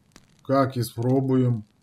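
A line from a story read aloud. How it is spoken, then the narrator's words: Dejected mumble. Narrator (Russian): промямлил унылый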